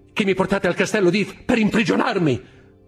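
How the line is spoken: Exclaiming. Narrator (Italian): esclamò

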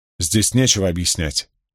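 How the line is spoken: Firm, categorical. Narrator (Russian): категорическим тоном заявила Аилка

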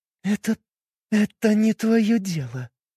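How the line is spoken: Forced through clenched teeth. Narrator (Russian): выдавила сквозь зубы

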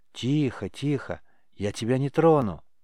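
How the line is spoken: Quiet soothing voice. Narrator (Russian): Пытаясь его успокоить, негромко сказал Риз

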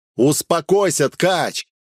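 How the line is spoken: Shout. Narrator (Russian): снова крикнул я

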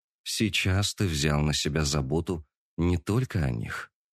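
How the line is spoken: Quiet. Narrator (Russian): негромко сказала она

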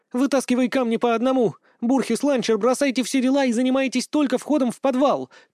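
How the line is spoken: Shouting. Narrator (Russian): кричал Опен

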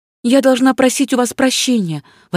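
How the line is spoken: Exclamation. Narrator (Russian): воскликнула Ванина

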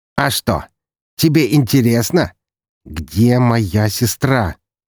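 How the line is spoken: Slow, restrained anger. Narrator (Russian): медленно произнес я, сдерживая себя, чтобы не заорать

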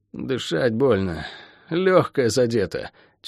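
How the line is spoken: Strained, through teeth. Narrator (Russian): через силу процедил Шен

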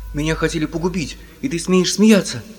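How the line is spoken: Shout. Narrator (Russian): крикнул Том

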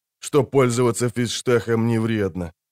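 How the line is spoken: Heavy sigh. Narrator (Russian): тяжело вздохнул он

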